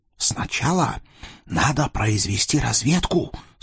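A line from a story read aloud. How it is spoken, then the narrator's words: Self-important whisper. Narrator (Russian): с важным видом зашептал Юсуф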